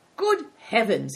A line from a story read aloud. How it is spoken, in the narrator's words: exclaimed Good Fortune